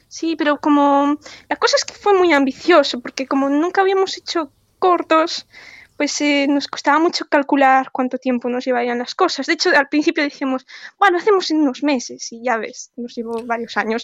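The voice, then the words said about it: Galician Spanish accent. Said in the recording (Spanish): “¿por qué estás hablando con acento gallego? ... hacerse el gallego”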